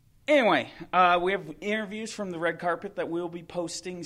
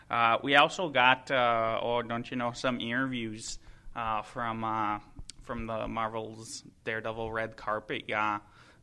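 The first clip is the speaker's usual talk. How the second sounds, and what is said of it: Put-on Minnesotan accent. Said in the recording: “This accent. ... I grew up around too many Minnesotans to put up with that for very long.”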